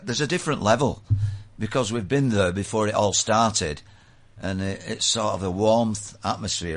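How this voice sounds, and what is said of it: Manchester English accent. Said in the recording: “I'm trying to work out the accent. ... I'm from bloody Manchester.”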